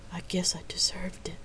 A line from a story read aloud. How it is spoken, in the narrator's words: she whispered in quiet despair